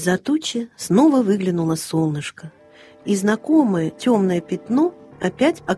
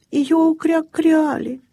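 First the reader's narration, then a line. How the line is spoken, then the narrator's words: Sad. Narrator (Russian): печально проговорил Крячик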